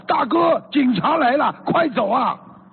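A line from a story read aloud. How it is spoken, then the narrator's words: Loud urgent shout. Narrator (Chinese): 那个朋友风风火火的 大声吼道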